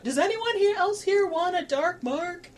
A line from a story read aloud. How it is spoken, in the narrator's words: yelling out